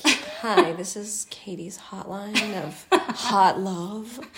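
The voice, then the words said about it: Smooth sultry phone hotline voice. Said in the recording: “it should be like a hotline voice ... you have a great phone voice ... sexy lady on the phone”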